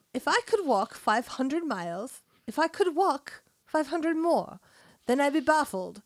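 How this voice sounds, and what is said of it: Bad put-on British accent. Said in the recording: “the second submission from ... with a British accent ... This is going to suck ... it would just be so bad”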